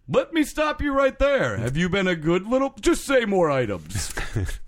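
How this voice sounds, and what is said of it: Santa Claus impression. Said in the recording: “my Santa impression started to improve at the end”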